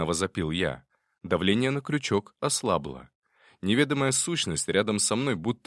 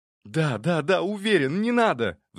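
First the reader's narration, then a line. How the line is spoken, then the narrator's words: Pleading. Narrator (Russian): взмолился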